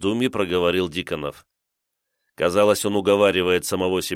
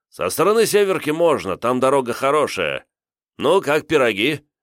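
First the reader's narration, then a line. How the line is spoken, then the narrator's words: Cheerful question. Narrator (Russian): весело спросил Диконов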